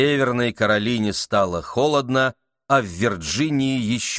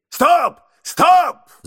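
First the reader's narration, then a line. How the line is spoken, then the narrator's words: Sudden shout. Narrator (Russian): закричал вдруг мистер Адамс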